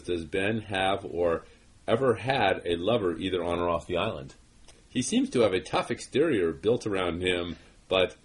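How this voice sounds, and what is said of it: Zsa Zsa Gabor accent impression. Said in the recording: “why am I doing like a Zsa Zsa Gabor accent?”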